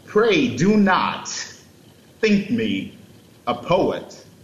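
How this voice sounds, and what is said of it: Christopher Walken-style impression. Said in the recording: “terrible Christopher Walken impression ... That was great ... You nailed it.”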